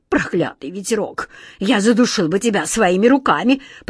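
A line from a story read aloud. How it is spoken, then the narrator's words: Hissing. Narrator (Russian): прошипел главный сборщик улыбок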